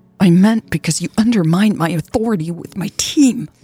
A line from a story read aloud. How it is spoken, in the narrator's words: Louise snapped